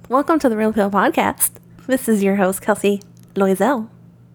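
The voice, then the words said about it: Flight attendant style voice. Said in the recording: “talking like a flight attendant”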